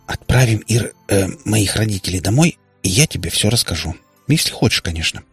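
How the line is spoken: Hurried, then whispered. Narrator (Russian): поторопилась ответить Катя и добавила шепотом

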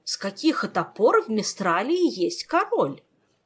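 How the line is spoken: Indignant elderly shout. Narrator (Russian): возмущенно выкрикнул престарелый граф Олси

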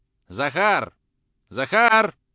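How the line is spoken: Loud shout. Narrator (Russian): закричал он громко

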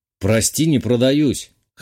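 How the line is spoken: Snort. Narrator (Russian): хмыкнул я

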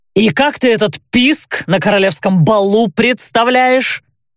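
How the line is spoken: Growled. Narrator (Russian): прорычал Кайль

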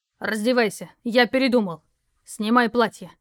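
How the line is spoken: Stern. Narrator (Russian): строго добавил он

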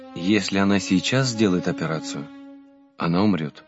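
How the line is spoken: Sad. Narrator (Russian): грустно сказал батюшка

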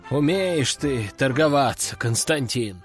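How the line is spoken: Sighing count. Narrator (Russian): вздохнул граф

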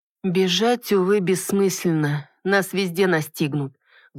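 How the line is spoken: Muffled, hollow voice. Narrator (Russian): глухим голосом произнесла

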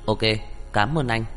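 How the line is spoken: Cold, satisfied. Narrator (Vietnamese): Henry Hook lại hài lòng với đáp án, lạnh lùng nói với Giang Dĩ Thần

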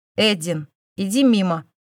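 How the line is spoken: Stern. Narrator (Russian): сказал строгим тоном

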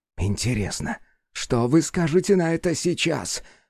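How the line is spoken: Hissed. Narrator (Russian): прошипел Сома Иоши

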